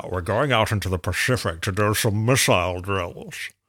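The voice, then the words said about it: Sean Connery impression, Scottish accent. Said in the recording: “Sean Connery's line ... a Scottish accent for a Russian submarine commander”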